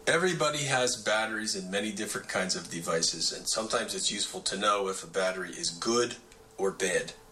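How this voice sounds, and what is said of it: Baltimore accent. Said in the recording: “Great Baltimore accent”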